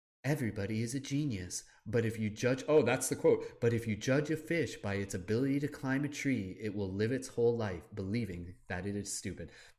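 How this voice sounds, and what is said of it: Imitates another person's voice. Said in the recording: “my best impersonation of Lacey ... my horrible Lacey impersonation ... She's absolutely sounds way, way, way, way more beautiful than whatever the hell I just did”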